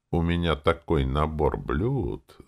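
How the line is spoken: Conspiratorial purr. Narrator (Russian): заговорщически промурлыкала

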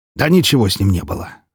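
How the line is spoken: Wry snort. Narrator (Russian): хмыкнул

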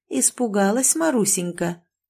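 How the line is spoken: Quiet tender question. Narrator (Russian): тихо и ласково спросила попадья

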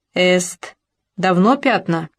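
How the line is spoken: Mocking. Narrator (Russian): насмешливо

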